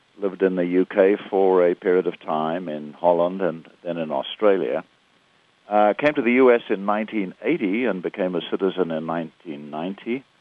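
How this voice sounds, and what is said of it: South African accent. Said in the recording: “explain my accent. ... I was born and raised in South Africa”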